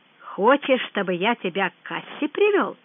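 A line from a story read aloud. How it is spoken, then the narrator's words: Thoughtful. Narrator (Russian): задумчиво сказал Лебедев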